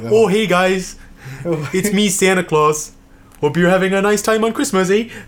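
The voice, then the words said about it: Canadian accent Santa Claus voice. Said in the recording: “Imagine Tim Allen with a Canadian accent in that movie.”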